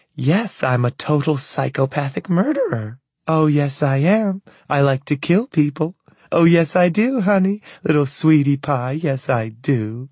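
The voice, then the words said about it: High-pitched cooing baby voice. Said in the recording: “talking in a high-pitched baby voice ... cooing”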